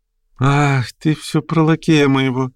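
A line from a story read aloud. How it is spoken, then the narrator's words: Sudden laughing. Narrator (Russian): засмеялась вдруг Марья Тимофеевна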